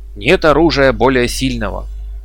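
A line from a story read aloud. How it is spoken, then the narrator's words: Several voices exclaiming. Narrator (Russian): воскликнуло сразу несколько индейцев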